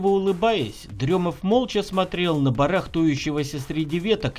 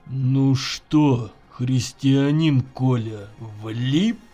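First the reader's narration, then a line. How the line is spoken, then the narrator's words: Strange low voice. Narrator (Russian): произнес Дремов чужим низким голосом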